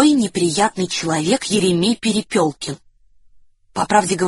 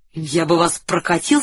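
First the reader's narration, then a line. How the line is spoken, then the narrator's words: Plain. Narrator (Russian): сказал Соболев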